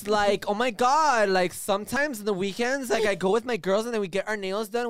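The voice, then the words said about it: Valley Girl voice. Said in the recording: “in a Valley Girl voice ... Valley Girl voice”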